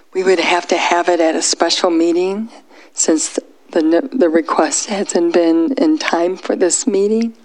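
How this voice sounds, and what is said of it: Hoarse, croaky voice. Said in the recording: “I sound like a frog.”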